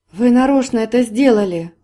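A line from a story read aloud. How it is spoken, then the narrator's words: Exclamation. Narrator (Russian): воскликнула она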